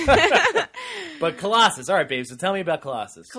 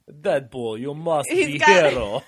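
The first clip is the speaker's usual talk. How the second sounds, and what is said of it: Put-on Russian accent. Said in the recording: “He's got a Russian accent.”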